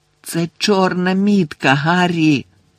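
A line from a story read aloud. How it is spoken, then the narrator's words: Moaning. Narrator (Ukrainian): простогнала Герміона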